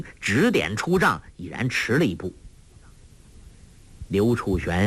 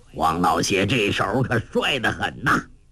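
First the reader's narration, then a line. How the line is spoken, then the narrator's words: Laughing. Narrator (Chinese): 洪七公笑道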